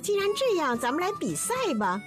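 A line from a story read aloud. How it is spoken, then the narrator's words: Bursting into laughter. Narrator (Chinese): 羚羊听了不禁大笑起来说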